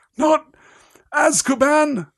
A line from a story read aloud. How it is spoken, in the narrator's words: croaked Hagrid